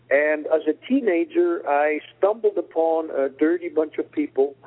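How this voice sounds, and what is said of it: Slight Swiss accent. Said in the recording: “Hearing me speak, you might realize that I have a bit of an accent, and that means I was born and raised in Switzerland.”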